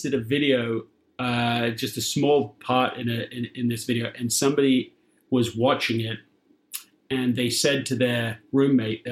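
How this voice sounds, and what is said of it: British accent. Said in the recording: “the worst fake British accent I've ever heard ... I can't even get away with my real accent.”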